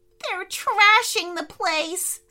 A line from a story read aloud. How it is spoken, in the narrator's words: squealed Benedict